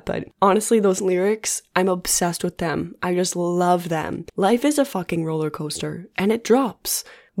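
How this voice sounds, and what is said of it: Hoarse voice. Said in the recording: “my voice is randomly hoarse right now”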